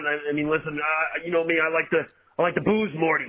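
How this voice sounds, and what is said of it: Rick Sanchez cartoon voice impression. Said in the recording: “Rick Sanchez ... a pretty good Rick Sanchez impression ... That's pretty well done.”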